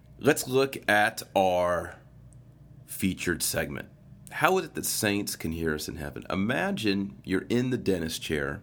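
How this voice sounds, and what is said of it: Nasal, congested head-cold voice. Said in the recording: “my voice is a little different this week. I've had a head cold, and my head is full of congestion, so I'm a little bit nasal this week.”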